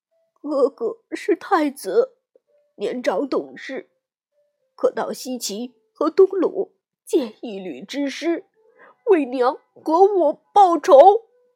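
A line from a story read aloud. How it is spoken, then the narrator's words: Crying. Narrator (Chinese): 殷红听罢，也哭着说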